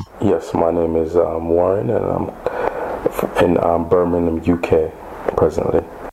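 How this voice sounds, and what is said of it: American accent. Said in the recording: “but with an American accent.”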